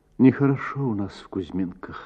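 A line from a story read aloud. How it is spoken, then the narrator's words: Answered with sad sigh. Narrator (Russian): ответила Татьяна и печально вздохнула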